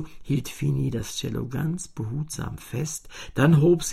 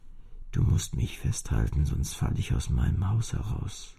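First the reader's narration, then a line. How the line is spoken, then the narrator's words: Murmuring cello. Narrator (German): murmelte das Cello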